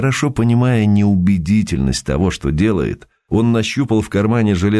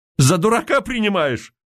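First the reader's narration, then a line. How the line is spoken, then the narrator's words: Shouting. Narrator (Russian): крикнул Михеев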